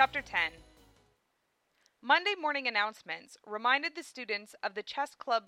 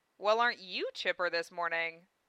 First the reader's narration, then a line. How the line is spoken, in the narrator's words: said Lena